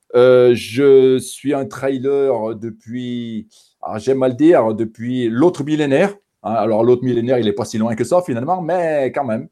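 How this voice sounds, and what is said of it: Saint-Étienne regional French accent. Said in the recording (French): “Je pense que par mon accent, euh, les gens vont s'en rendre compte euh, d'eux-mêmes. Donc, je viens de la région euh, stéphanoise.”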